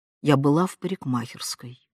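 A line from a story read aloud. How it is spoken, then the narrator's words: Mother's quiet voice, offstage. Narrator (Russian): тихо сказала мать из кухни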